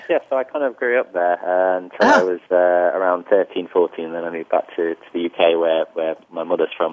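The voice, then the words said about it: British accent. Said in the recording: “You also don't have any Saudi accent. You have a total British accent”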